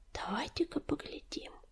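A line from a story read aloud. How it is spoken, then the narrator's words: Whisper. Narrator (Russian): прошептал Огнезвезд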